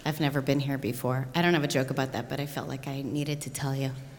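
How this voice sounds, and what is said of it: American accent. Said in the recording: “I'm American. I don't know if you noticed that. My weird accent.”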